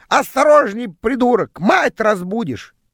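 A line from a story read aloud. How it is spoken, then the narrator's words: Screeching parrot. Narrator (Russian): попугай в клетке проснулся и закричал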